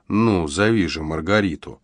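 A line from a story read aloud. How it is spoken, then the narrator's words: Muffled repeating voice. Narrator (Russian): повторял глухим голосом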